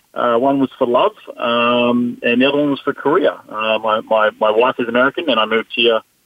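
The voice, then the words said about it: Australian accent. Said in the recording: “as you can probably hear from my deep southern accent... I'm not originally from America. I'm from down under”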